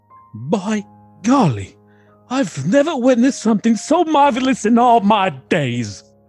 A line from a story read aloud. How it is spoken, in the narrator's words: In a broken British accent, Jeb shouts